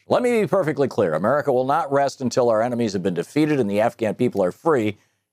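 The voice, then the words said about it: Imitates a generic president's voice. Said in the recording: “I can't do a good Trump imitation, so I'll just do a guy in the White House imitation.”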